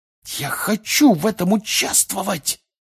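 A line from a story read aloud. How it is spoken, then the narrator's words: Loud hiss. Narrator (Russian): прошипел на весь стол Фред Уизли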